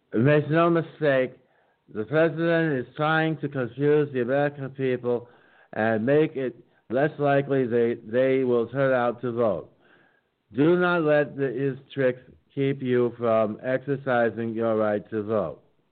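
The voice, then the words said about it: Cheesy imitation of another person's voice. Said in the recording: “my cheesy Pelosi imitation”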